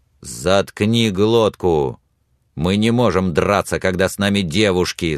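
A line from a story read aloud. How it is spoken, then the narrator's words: Growling. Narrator (Russian): зарычал на него Билли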